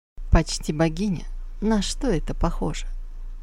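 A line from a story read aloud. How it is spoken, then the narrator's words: Insinuating whisper. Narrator (Russian): прошептал вкрадчиво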